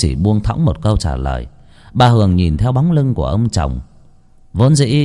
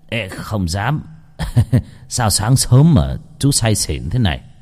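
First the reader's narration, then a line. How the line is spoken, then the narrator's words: Dry perfunctory laugh. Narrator (Vietnamese): Ông Doãn cười nhạt cho có lệ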